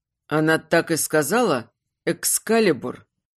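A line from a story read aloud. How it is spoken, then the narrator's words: Forced out. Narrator (Russian): выдавил он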